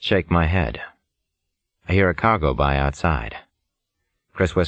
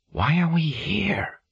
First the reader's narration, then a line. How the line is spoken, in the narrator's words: Chris whispers